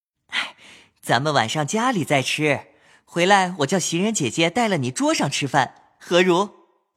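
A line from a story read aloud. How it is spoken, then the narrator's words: Laughing. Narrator (Chinese): 宝玉 笑道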